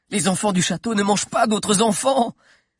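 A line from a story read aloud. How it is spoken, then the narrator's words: Relieved exclamation. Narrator (French): s'écria Zizo, libéré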